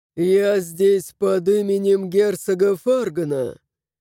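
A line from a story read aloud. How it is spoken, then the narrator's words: Cold interruption. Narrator (Russian): Холодно перебил его герцог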